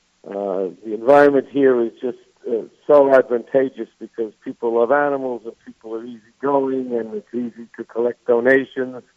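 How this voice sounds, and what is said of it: New York accent. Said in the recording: “I'm a New Yorker. Nobody can tell from my accent, I'm sure”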